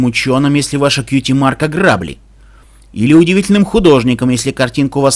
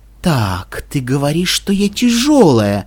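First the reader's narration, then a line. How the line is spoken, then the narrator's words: Silky smooth voice. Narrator (Russian): сказала Вельвет Ремеди, словно шоколадным шелковым голосом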